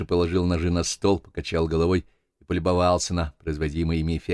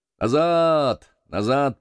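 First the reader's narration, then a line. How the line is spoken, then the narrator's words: Booming drone. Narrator (Russian): прогудел долговязый Джек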